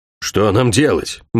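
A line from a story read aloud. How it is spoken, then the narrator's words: Gloomy question. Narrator (Russian): мрачно спросил Алин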